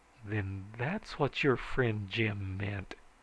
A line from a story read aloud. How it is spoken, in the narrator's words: said slowly